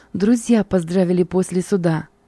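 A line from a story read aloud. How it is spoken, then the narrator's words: Joyful group reply. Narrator (Russian): радостно отвечали мы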